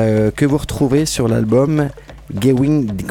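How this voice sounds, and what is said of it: Usual voice. Nothing is said of it.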